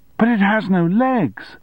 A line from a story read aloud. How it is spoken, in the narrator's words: he shouted in disbelief